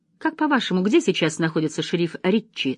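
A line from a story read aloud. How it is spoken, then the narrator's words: Plain question. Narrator (Russian): спросил секретарь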